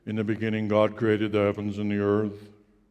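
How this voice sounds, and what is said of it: Big, deep booming voice. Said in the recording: “the glowy thing speaks a big voice ... a big, deep voice from the heavens”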